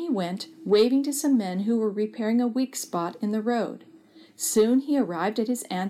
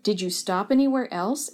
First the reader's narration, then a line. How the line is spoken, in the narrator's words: Auntie asked